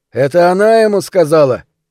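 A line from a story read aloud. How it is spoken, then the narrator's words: Shouted in surprise. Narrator (Russian): крикнул в ответ Рот, на мгновение сам удивившись этим словам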